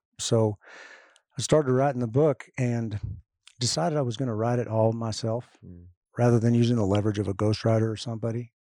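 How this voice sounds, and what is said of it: Rough, hoarse voice. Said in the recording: “my voice is a little rough today.”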